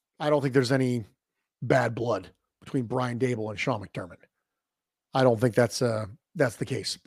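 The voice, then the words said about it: Strained, failing voice. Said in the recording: “my voice is beginning to fail”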